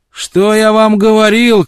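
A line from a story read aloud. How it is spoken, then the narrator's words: Triumphant shout. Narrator (Russian): крикнул он им с торжеством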